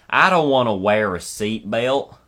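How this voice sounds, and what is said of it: Put-on rural-sounding accent. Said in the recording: “Why would they sound like that when they protest? ... rural-sounding accent”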